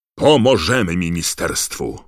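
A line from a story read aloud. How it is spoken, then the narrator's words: Roared over the din. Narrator (Polish): ryknął pan Weasley, przekrzykując tumult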